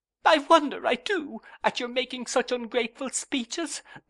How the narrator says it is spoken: sobbed Dora

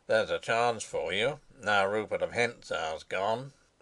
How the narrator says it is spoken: said Sapt grimly

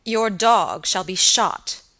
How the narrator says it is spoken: answered Sir Michael angrily

